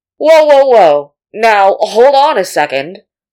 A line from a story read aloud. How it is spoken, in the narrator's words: A crackling voice shouted from somewhere, sounding a lot like Tuo